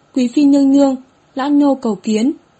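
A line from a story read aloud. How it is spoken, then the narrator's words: Old eunuch, hurried, loud. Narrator (Vietnamese): Lão thái giám vội cao giọng nói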